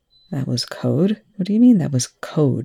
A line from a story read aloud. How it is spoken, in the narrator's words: Young growled